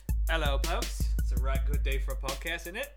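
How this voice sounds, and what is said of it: Poor put-on British accent. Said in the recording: “this must be the British ... the same voice coach as Don, Johnny Depp, a man who's never actually met someone from England ... doing an impersonation of other British characters I've heard, and that is the depth of my practice for for my British accent”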